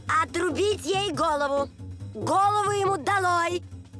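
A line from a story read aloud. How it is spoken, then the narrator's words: Furious repeated shouting. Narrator (Russian): королева пришла в бешенство, то и дело кричала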